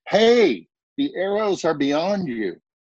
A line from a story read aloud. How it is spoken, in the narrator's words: Jonathan called out to the boy